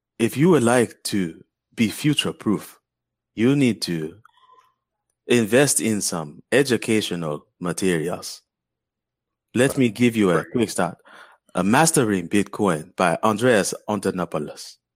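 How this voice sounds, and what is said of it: Put-on Wakanda-style African accent. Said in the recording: “your Wakanda is it's on point ... That's hard to say in an accent.”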